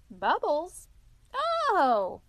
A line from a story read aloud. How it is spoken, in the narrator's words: said the water rat, and chirped cheeringly in an invitive sort of way